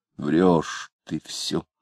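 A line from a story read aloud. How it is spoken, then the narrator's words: Sighing. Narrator (Russian): вздохнув, сказал Самгин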